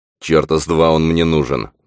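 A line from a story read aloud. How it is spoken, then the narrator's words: Relieved grumbling. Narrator (Russian): ворчал Фрэнк, не нарадуясь, что чудовище осталось позади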